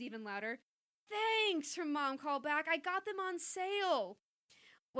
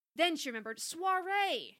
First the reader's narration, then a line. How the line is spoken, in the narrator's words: she cried in excitement